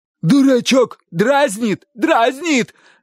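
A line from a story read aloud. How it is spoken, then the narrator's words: Shouted. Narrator (Russian): закричал дядя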